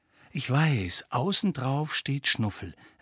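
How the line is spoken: Explaining. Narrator (German): erklärte er

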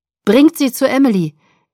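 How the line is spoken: Calling out. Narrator (German): rief Sam den anderen zu

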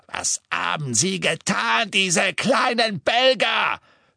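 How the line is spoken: Shouting. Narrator (German): schrie er

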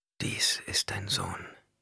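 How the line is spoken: Whispering. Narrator (German): wisperte Hara

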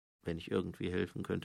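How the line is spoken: Muttered. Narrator (German): murmelte Mumm

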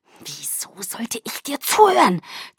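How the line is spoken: Hissing. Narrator (German): zischte

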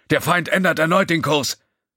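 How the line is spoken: Calling out. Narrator (German): rief Lieutenant Kalorg von der Waffenstation

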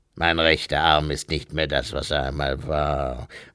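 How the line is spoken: Murmur. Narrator (German): murmelte Krieg

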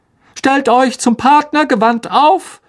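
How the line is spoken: Calling out from stage. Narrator (German): rief Lockhart inzwischen wieder auf der Bühne

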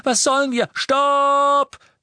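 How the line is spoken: Thundering, echoing powerful voice. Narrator (German): donnerte Harry, und die mächtige Stimme Runcorns hallte durch das Atrium

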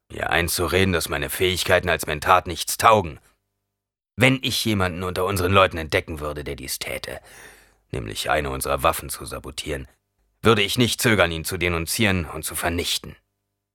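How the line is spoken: Growled. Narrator (German): knurrte Havard

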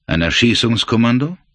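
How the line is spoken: Plain question. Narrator (German): fragte er

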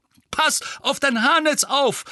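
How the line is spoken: Calling out. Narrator (German): rief Mandanges

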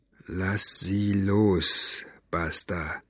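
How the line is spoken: Very quiet, weak. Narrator (German): Mo sprach ganz leise, als hätte er keine Kraft für mehr

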